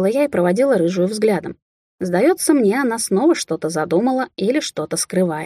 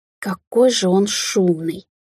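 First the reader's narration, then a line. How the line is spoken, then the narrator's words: Groaning. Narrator (Russian): простонала Алисия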